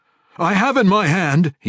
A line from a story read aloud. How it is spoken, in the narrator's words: he yelled